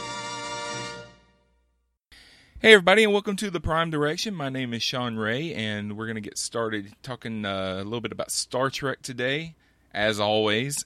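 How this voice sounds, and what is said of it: Alabama accent. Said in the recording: “I love your accent. I know you think you don't have one, but I'll tell you, it's great. ... My Alabama accent.”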